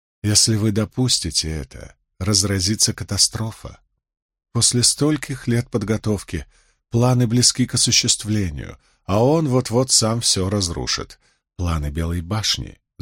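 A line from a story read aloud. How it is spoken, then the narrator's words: Calm, agreeable. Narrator (Russian): заметила Эмис так спокойно, будто соглашалась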